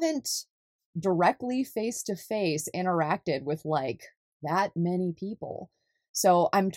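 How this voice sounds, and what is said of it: Usual voice. Nothing is said of it.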